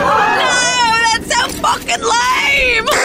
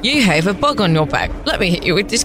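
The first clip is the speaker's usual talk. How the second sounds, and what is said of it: Put-on accent. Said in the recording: “She's doing an accent. ... She was just doing a different accent.”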